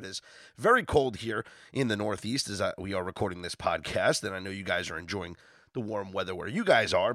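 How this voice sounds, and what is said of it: Slightly hoarse voice. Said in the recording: “my voice is a little hoarse, ... I am under the weather”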